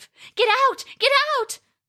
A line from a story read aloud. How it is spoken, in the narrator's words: cried Roska